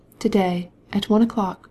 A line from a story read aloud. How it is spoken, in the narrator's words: replied in a low voice, and with a deep sigh